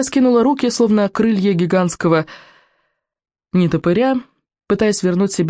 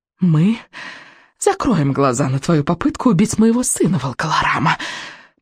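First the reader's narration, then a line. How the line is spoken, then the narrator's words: Witch's hiss. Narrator (Russian): прошипела ведьма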